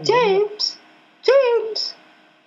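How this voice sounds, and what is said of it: Imitated British-accented woman's voice. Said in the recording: “how would she pronounce her name with a British accent? ... that sounded just like her”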